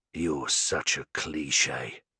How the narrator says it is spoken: he growls

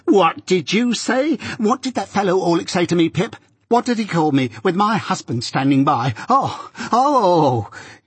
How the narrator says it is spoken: Each of these exclamations was a shriek

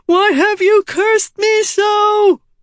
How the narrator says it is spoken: He screamed a pleading cry

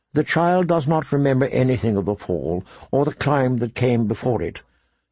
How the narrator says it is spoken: said Maester Lewin gently

